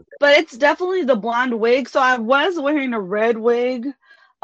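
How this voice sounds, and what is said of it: Louisiana Creole and Texas accent. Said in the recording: “I can hear the Creole in your voice ... she don't sound like she's from Texas. She sounds like she's from Louisiana ... I can hear the Creole in you and a little bit of Texas”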